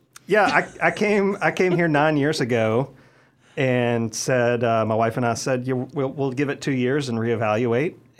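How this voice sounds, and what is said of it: Southern US accent, Mississippi. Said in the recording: “Did you pick up on the accent? ... Mississippi. ... it's a different brand of Southern”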